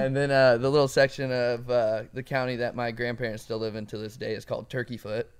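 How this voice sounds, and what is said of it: Slight regional accent. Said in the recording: “you can hear his accent a little bit. ... Oh, it comes. ... You hear it's coming out.”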